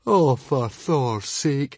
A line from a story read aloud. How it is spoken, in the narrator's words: moaned Fishlegs